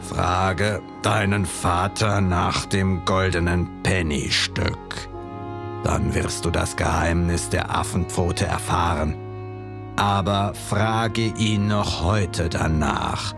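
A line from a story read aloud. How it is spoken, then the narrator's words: Calm hoarse voice. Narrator (German): wurde sie ruhig, fast steif und starr schaute sie den Jungen an und sagte mit heiserer Stimme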